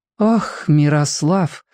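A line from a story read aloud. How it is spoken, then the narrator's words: Mother sighing. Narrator (Russian): вздохнула мама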